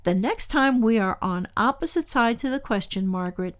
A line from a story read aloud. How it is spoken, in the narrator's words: he said